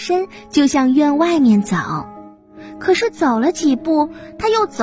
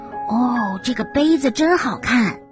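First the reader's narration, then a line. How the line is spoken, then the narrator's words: Admiring exclamation. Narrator (Chinese): 感叹的说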